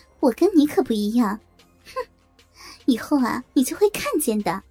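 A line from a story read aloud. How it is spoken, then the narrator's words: Cold calm reply. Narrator (Chinese): 李娟也没有动怒，冷漠的回道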